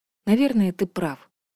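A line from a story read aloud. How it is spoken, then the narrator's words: Breathed out after silence. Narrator (Russian): после долгого молчания выдохнула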